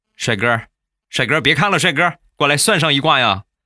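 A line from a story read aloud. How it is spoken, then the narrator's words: Calling out. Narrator (Chinese): 他冲我喊了一句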